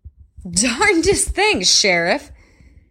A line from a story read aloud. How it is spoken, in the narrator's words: Brent said, laughing loudly